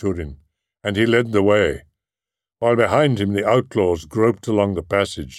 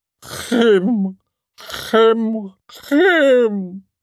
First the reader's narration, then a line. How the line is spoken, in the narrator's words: the old dwarf wailed, tearing at his beard